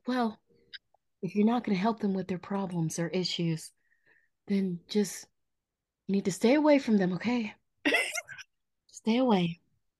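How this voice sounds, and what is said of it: Imitates another person's voice. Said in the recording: “Talk like your mama. ... Say it like your mom. ... impersonates my auntie so well.”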